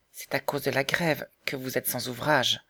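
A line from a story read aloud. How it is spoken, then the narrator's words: Gentle question. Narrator (French): demanda doucement Marguerite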